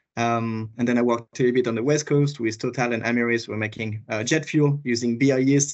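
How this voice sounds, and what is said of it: French accent. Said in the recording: “I'm originally from France, you might hear it from my accent”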